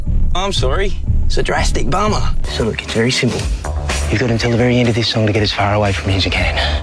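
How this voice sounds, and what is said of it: Put-on Australian accent. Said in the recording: “I could tell that was someone trying to put on an Aussie accent.”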